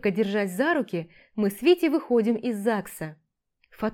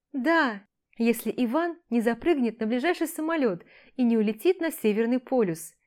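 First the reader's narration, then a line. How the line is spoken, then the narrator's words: Laughing. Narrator (Russian): Продолжаю смеяться я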